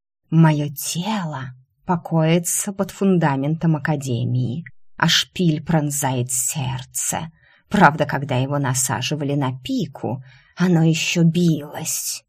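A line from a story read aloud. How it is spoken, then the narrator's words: Hissing serpent. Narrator (Russian): прошипел змей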